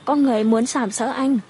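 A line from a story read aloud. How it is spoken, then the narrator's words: Wailing bitterly. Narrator (Vietnamese): Bạch Tuyên khóc lóc thảm thiết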